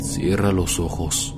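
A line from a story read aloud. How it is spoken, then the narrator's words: Low voice. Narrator (Spanish): dijo en tono bajo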